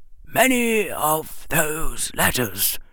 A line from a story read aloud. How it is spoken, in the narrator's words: the old wizard said quietly